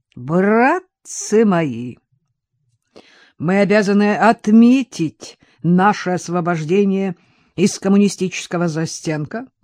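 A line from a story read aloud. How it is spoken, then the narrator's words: Booming drone. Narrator (Russian): прогудел Григорий Крутков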